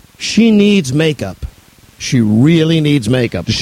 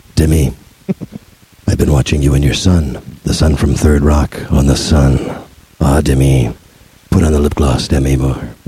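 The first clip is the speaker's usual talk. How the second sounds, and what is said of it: Imitates another person's voice. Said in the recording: “Did you work on that impression a little bit more of Alec Baldwin”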